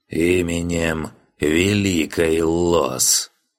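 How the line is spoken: Solemn creaky, promising tone. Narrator (Russian): многообещающе улыбнулся и торжественно проскрипел

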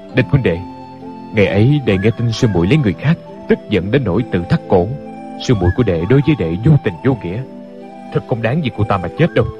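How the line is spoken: Pausing sigh. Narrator (Vietnamese): Ngừng một chút lại thở dài

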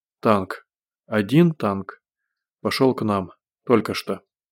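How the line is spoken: Coughing, then almost normal voice. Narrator (Russian): Закашлялся и почти нормальным голосом сказал

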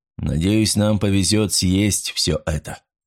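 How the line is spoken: Gloomy reply. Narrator (Russian): мрачно отозвался Фарнхолм

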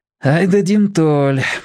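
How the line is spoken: Sighing. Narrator (Russian): вздохнул Борис

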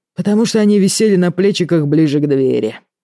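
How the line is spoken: Sigh. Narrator (Russian): вздохнул Артём

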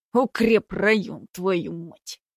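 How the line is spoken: Curt, through clenched teeth. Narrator (Russian): бросил однажды сквозь зубы Руденчик

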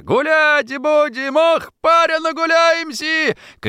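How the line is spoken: Shouting. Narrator (Russian): крикнул он Антошину

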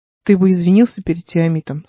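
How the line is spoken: Plain. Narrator (Russian): сказал Игорь

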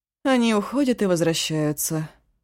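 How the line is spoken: Tired explanation. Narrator (Russian): устало пояснила Янса

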